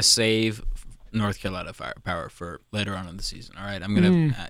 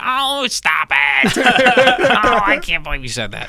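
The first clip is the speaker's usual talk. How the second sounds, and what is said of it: Imitates another person's voice. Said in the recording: “It's a very good impression. ... That is what I sound like.”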